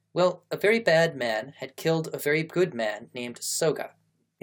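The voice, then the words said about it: Bad period drama accent. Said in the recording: “I'm not going to try to do a little boy Japanese accent. That's why somehow I'm just slipping into what always sounds like just some bad period drama accent.”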